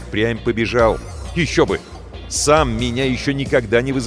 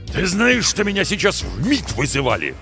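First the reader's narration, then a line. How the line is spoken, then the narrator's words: Loud bark. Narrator (Russian): гаркнул шеф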